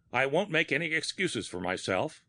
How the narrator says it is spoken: Asa Gregg said harshly

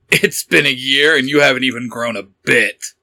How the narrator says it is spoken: Nightwing chuckled

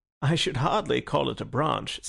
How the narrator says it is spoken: said Syme, laughing

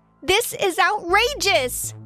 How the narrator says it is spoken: I yelled out

